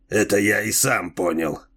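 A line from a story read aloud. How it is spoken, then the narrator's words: Grumbling. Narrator (Russian): проворчал землянин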